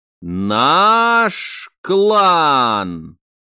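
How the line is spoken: Drawn-out, smiling old soldier. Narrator (Russian): протянул каждое слово, при этом коротко улыбнувшись старый вояка

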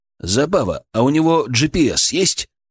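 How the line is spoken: Plain. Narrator (Russian): спросил Александр

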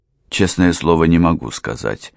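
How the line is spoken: Servant's cold reply. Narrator (Russian): холодно ответил слуга

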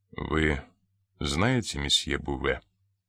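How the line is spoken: Plain. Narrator (Russian): спросил инспектор

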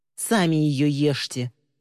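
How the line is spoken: Growled. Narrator (Russian): прорычала Ли

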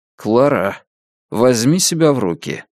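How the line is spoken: Calm request. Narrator (Russian): спокойно попросил Джек

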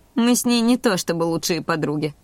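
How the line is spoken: Snorting. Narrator (Russian): хмыкнула я

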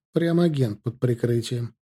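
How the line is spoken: Laughing. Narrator (Russian): рассмеялся я

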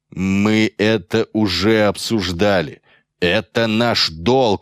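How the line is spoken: Growl. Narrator (Russian): рыкнул на него Метцов

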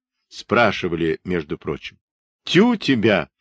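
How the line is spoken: Laughing speech. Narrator (Russian): смеялся Харченко

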